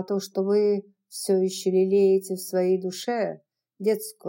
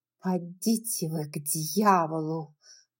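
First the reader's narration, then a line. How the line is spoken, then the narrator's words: Hiss through teeth. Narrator (Russian): прошипела сквозь зубы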